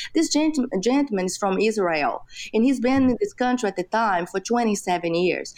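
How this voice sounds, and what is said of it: Non-native English accent. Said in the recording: “my accent, I speak English as a second language”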